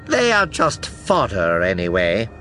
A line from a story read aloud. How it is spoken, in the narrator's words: she says as an aside, dismissing an entire army with a sour sneer